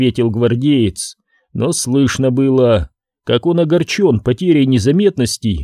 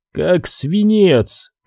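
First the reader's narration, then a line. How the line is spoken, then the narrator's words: Strained mutter. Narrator (Russian): пробормотал он, кряхтя от натуги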